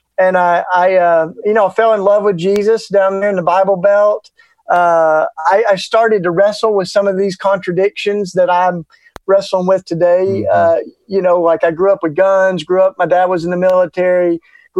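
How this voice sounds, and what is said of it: Southern US accent. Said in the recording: “my charming Southern accent”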